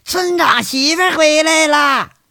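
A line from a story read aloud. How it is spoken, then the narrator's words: Children shouting. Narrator (Chinese): 一群小屁孩在那喊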